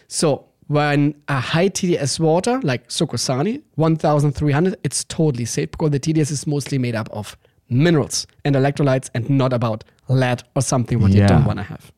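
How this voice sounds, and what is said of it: Northern German accent, higher register. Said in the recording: “the charm of your accent ... It's a different accent. ... You have the higher, ... I'm from the north ... I'm from the Danish border in Germany.”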